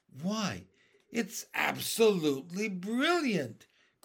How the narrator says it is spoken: cried the old green grasshopper

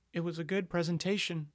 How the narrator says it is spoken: Gloria murmured, momentarily softened

